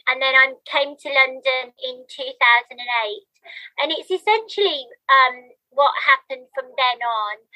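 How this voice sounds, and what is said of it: Birmingham English accent. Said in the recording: “I used to live in Birmingham, which won't come as a surprise from my accent.”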